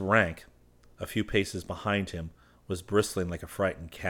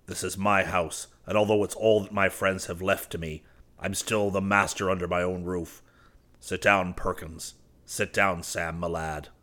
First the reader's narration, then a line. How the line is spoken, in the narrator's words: he added bitterly